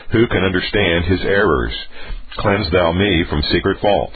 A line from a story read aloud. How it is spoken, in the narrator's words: let him exclaim with David